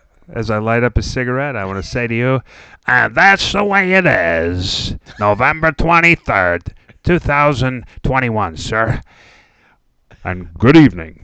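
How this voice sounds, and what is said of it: Imitates another person's voice. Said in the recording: “good impersonation ... you could do your Cronkite, you could do your Peter Falk ... Why don't we mesh it?”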